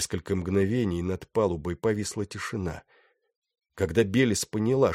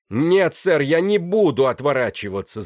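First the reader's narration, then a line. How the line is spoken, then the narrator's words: Shout. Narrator (Russian): закричал он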